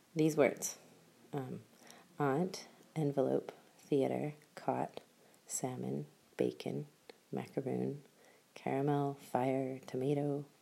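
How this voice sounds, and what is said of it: West Coast Canadian accent. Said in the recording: “my West Coast Canadian accent”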